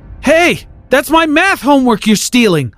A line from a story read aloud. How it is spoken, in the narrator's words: I yelled after him